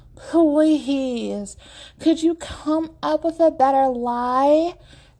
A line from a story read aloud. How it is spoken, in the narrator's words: Abigail groans